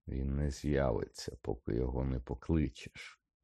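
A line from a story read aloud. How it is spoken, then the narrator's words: Calm reply. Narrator (Ukrainian): спокійно відповів Редл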